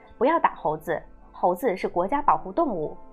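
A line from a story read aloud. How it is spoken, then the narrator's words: Loud condemnation. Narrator (Chinese): 一些人会大声谴责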